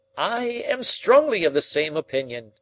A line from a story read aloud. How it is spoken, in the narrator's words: cried Summerlee